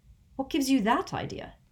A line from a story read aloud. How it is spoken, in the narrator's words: He said sharply